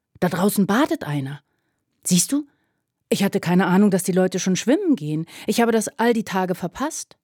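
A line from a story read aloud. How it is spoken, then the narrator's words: Called out. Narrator (German): rief er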